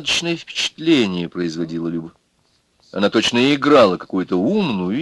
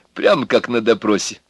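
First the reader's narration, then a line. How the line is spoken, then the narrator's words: Said with small laugh. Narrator (Russian): сказал Егор и мелко посмеялся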